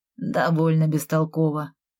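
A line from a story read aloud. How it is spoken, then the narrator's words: Gloomy. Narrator (Russian): мрачно ответил он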